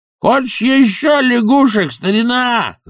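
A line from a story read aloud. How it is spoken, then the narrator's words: Yelled. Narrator (Russian): заорал он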